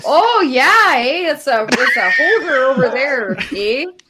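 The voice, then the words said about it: Put-on Canadian accent. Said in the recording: “your Canadian girl accent voice... You sound like Sarah Palin... Irish. I'm not sure what I'm doing. I should probably workshop it.”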